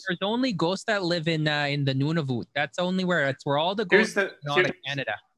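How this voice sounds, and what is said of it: Put-on Minnesotan accent. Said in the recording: “the accent that we're doing right now. It's not a Canadian accent. That's a Minnesotan accent.”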